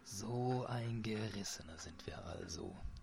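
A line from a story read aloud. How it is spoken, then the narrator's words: Whisper. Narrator (German): flüsterte Muhalt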